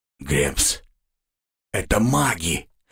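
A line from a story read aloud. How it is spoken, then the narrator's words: Hoarse rasp. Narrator (Russian): прохрипел Робс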